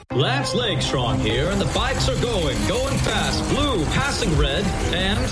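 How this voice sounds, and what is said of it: Sports announcer voice. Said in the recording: “practicing my announcer voice for the big race”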